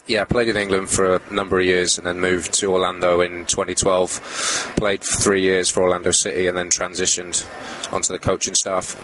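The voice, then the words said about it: British accent. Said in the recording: “No, it's a British accent.”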